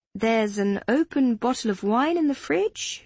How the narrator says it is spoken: she said, swallowing the giggle that threatened to bubble over

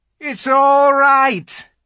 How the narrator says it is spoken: he was shouting

